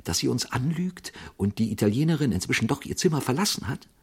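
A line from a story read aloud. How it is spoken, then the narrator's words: Quiet question. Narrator (German): fragte sein Begleiter leise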